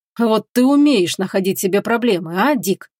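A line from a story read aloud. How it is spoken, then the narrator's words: Grumbling. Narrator (Russian): проворчал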